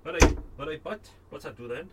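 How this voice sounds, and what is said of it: Put-on Welsh accent. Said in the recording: “I hope when I drink it, I get a better Welsh accent.”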